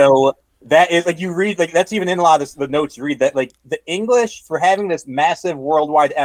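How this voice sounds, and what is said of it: Usual voice. Nothing is said of it.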